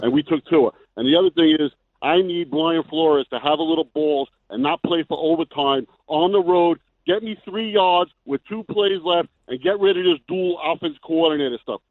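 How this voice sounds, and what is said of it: Yelling, angry caller. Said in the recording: “I'm yelling at my team.”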